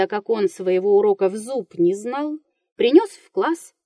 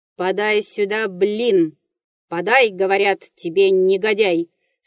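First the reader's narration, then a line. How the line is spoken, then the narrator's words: Stern teacher's voice. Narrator (Russian): сказал грозный учитель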